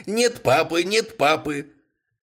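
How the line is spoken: Mocking shout. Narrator (Russian): насмешливо крикнул

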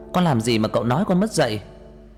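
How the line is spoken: Furious shouting. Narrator (Vietnamese): Tôi điên lên, hét lên

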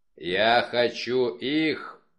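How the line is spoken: Growled. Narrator (Russian): прорычал Вульф

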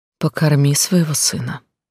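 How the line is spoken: Gentle. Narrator (Russian): мягко сказала женщина

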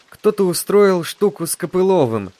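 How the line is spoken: Sad. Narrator (Russian): печально сказал Гриша

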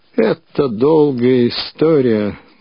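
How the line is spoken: Dull, muffled. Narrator (Russian): глухо начал он

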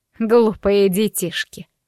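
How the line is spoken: Scoffing snort. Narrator (Russian): хмыкнула свекровь

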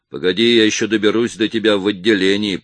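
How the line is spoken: Growled. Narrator (Russian): прорычал он

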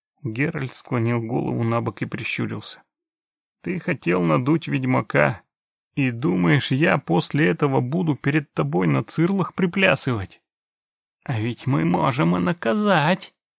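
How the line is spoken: Insinuating creaky old voice. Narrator (Russian): вкрадчиво проскрипел дед

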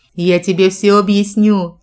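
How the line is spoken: Speaking through laughter. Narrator (Russian): Сквозь смех проговорила я

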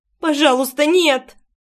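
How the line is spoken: Whimpering plea. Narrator (Russian): скулила я, отворачиваясь от Бритова, который до боли сжал мою грудь

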